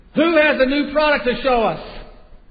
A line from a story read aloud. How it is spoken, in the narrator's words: the executive over sporting goods grabbed the microphone and screamed